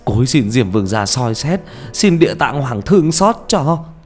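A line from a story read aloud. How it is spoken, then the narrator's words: Tearful wailing. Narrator (Vietnamese): Ông gào lên trong nước mắt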